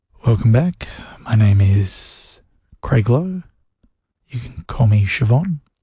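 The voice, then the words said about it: Classical music radio presenter voice. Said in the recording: “my impression of how they talk on like the classical music radio, you know, the players that play like symphonies and stuff... I'm going to do my impression of what they do”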